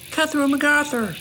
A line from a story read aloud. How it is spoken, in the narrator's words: Matt yelled